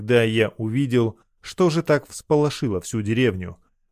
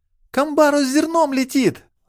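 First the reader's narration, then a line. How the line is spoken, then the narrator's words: Horrified woman's scream. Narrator (Russian): с ужасом закричала та самая женщина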